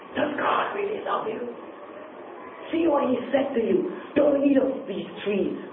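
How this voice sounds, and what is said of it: Satan impression, tempting voice. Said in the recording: “I'm trying to put on my Satan impression here in the Garden of Eden.”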